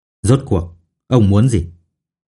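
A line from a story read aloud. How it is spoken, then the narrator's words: Lowered voice. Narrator (Vietnamese): Lục Thiên Trường hạ giọng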